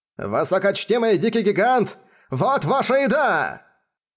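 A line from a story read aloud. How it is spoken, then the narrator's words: Shouted, imitating mentor's manner. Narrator (Russian): Закричал он, подражая манере говорить своего наставника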